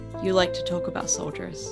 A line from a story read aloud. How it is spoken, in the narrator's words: she said softly